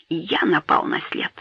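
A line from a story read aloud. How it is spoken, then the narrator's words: Low whisper. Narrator (Russian): вполголоса прошептал он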